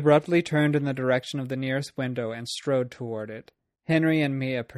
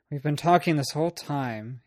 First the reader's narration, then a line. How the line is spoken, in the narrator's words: he muttered